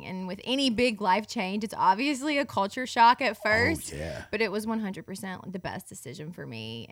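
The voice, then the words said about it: Southern US accent. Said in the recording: “obviously we can tell by your accent you grew up down here. ... Mississippi.”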